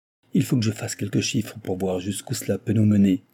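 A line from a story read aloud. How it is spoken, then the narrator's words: Grumble. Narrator (French): grommela-t-il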